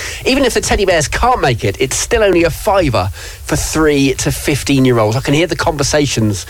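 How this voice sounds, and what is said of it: Usual voice. Nothing is said of it.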